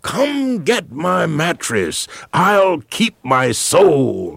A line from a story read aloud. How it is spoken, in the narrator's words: this freedom rider shouted